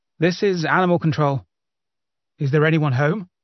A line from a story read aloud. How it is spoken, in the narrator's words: called out